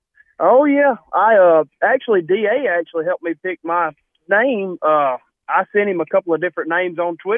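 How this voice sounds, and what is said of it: Southern US accent. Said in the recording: “I love the Southern accent. Nothing says ... like that Southern accent”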